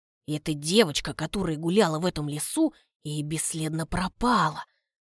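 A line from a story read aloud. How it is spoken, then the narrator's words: Whisper. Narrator (Russian): Проговаривает он шепотом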